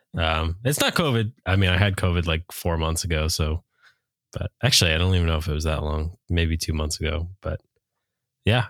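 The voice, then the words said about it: Deep, stuffy-nosed congested voice. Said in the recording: “Darth Vader with the stuffy nose over here ... This sounds like a bad like James Spader impression ... he sounds like Knight Lovell right now. up and coming rapper with a very deep voice”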